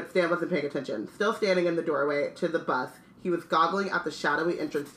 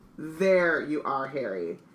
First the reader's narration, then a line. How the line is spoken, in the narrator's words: said a voice